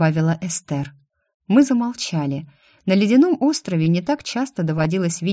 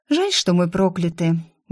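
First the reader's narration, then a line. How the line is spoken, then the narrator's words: Sigh. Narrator (Russian): вздохнула Мел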